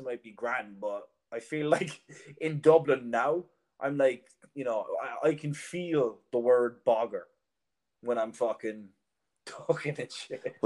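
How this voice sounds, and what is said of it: Irish accent. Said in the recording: “you've got an Irish accent.”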